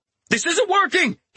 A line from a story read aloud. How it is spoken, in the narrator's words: he shouted to Sion